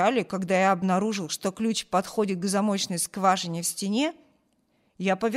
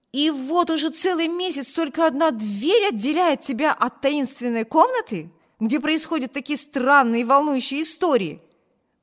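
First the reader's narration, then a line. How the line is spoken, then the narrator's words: Exclaimed. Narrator (Russian): воскликнул Виберт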